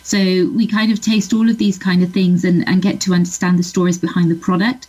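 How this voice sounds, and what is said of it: Southwest English accent. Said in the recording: “where's the accent from? ... I grew up in Bristol, which is a city in southwest England.”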